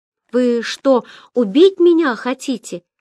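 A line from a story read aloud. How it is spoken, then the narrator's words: Desperate shout after blows. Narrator (Russian): отчаянно крикнул Ян после новых затрещин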